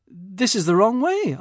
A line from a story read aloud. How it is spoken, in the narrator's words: I exclaimed